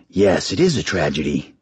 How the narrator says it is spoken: he rasped

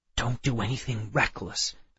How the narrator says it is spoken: I whispered back

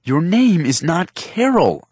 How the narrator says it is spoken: I yelled

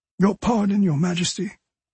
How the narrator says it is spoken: he said, his voice heavy with remorse

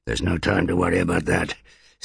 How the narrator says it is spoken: snarled Druss, as his shoulder flamed with fresh agonies

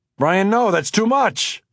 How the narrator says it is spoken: I screamed

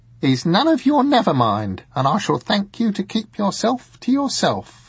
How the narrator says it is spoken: said Madame Semele, haughtily

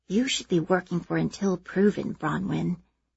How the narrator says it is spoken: Maeve leans her head next to mine and whispers

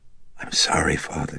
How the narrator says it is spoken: she huskily whispered

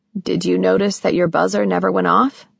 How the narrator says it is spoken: he asked

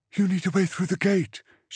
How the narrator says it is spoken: she said, her voice hoarse in her throat

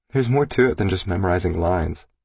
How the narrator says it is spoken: she said

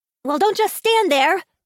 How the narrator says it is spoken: she shouted at the others

